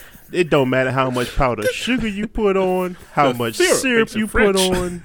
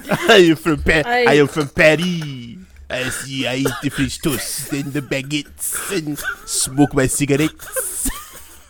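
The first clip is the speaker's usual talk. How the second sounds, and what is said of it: Put-on French accent. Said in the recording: “give me your best French accent ... very French”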